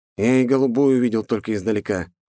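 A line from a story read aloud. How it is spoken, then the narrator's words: Amused snort. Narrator (Russian): хмыкнул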